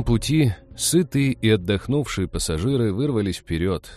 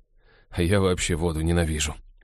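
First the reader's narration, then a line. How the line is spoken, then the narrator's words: Glum agreement. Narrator (Russian): уныло поддакнул Хелл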